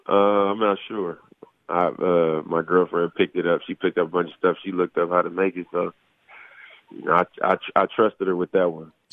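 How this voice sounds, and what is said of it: Sick-sounding voice. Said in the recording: “I'm still sick right now. Probably can hear it in my voice”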